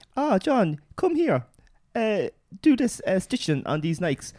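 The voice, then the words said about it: Bad put-on Chinese accent. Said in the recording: “my really bad Chinese accent”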